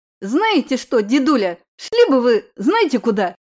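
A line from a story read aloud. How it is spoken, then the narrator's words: Barked shout. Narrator (Russian): рявкнула Лиза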